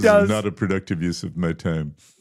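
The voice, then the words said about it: Elon Musk impression. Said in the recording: “That was my Elon impression.”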